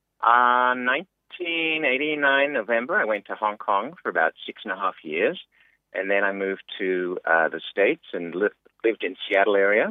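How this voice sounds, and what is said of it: Mixed Australian, American and Canadian accent. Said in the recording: “I'm a mixed bag as far as my accent ... You got a mixture of everything there, a bit of twang and a bit of Aussie and a bit of Canadian”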